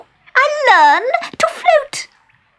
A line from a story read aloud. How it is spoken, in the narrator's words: she cried